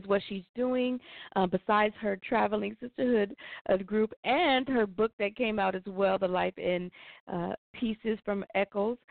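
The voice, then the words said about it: Voice affected by being unwell. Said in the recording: “Please excuse my voice today, you guys. I'm a little bit under the weather”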